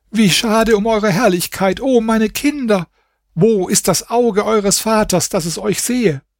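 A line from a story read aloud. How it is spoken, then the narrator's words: Woman crying out. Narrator (German): Die Frau schrie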